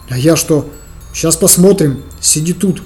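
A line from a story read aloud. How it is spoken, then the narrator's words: Whispered. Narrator (Russian): шепнул я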